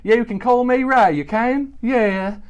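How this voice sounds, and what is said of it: Character voice with an accent. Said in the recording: “we're getting a little bit of the accent there”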